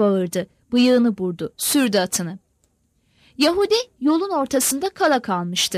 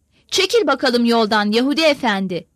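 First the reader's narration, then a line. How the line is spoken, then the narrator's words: Commander shouting. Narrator (Turkish): diye bağırdı bölük komandanı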